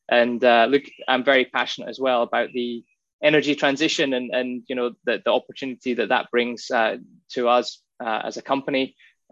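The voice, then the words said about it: Scottish Highlands accent. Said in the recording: “That accent does not sound like you were born in Western Australia. ... I was born in the Highlands of Scotland ... I was pretty sure after you'd said five words that you weren't a Western Australian.”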